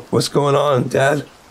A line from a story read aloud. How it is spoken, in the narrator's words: he asked, his voice trembling with confusion